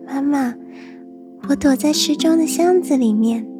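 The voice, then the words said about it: Small, tiny child's voice. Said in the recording (Chinese): “有个小小的声音说”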